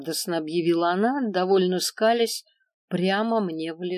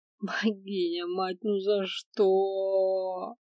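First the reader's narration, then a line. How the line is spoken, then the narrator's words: Inner groan. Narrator (Russian): мысленно простонала я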